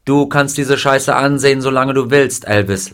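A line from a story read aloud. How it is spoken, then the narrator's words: Plain, female. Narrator (German): sagte sie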